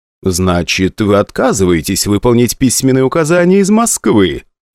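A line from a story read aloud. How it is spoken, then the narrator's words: Sardonic, smiling. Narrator (Russian): ехидно улыбнулся Бурченко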